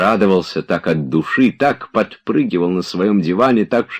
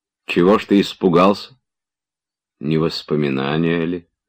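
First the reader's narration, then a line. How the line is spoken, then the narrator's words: Quiet, almost tender. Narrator (Russian): тихо, почти нежно прибавил Штольц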